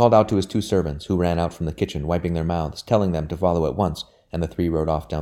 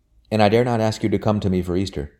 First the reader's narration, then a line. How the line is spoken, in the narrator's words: he said